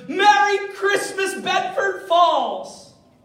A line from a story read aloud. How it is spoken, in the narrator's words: he shouts the words